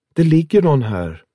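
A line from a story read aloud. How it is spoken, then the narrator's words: Calling out. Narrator (Swedish): ropade hon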